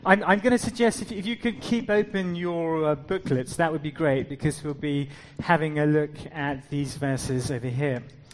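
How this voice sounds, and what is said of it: South African accent, partly British. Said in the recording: “I did spend quite some time in South Africa. I lived there till I was 15. But as you can tell, the accent has become a little bit British. So forgive me if I'm neither one thing or another thing.”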